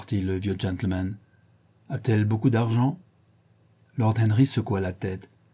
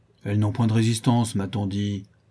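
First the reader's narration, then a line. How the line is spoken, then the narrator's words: Grumbling old man. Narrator (French): grommela l'oncle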